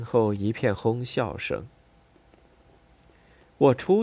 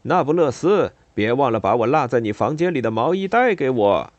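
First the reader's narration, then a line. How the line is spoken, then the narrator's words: Serious public shout. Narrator (Chinese): 一个曾被我拒绝的男生，当着很多学生的面，一脸严肃地对我喊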